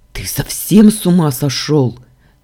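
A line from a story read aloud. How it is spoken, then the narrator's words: Barking. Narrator (Russian): рявкнул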